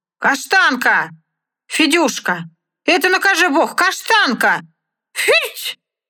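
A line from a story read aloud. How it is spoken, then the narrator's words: Child and man calling loudly. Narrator (Russian): два голоса, один детский, другой мужской, громко позвали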